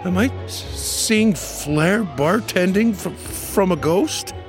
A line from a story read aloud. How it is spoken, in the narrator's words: stammered the barkeep